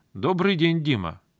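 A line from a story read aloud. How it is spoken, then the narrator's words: Loud reply. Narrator (Russian): ответила также громко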